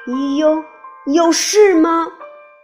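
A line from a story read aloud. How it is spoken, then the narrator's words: Angry, trembling voice. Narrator (Chinese): 小健怒目而视，声音有些颤抖地说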